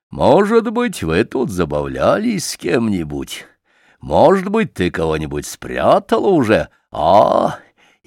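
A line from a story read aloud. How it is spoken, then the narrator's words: Gleeful triumphant laughter. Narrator (Russian): восхищенный таким своим замечанием, Чуб засмеялся, внутренно торжествуя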